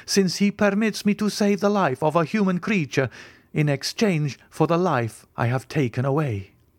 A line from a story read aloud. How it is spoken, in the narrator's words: I cried